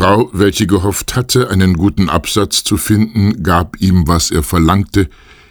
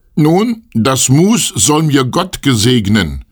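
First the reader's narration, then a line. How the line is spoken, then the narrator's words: Calling out. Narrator (German): rief das Schneiderlein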